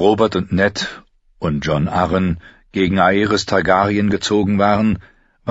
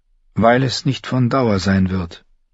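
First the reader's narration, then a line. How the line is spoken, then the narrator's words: Sad reply. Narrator (German): antwortete Caitlin traurig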